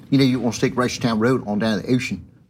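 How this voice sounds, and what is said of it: Put-on Baltimore accent. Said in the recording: “It's a great accent... No, it's a really good accent.”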